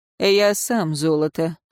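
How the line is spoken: Grumbling. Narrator (Russian): проворчал советник

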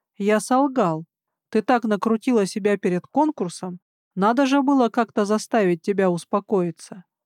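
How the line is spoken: Calm, brazen statement. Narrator (Russian): этот наглец спокойно заявил

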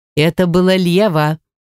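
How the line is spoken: Stern. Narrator (Russian): строго произнесла Малиша

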